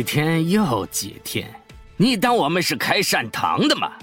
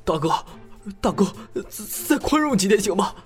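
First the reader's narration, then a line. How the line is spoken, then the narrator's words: Gasping for breath. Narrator (Chinese): 李月大口大口的喘息着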